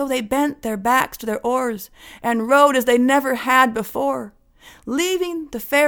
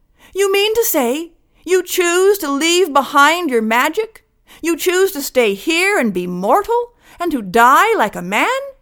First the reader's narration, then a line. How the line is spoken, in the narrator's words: And his fairy mother called out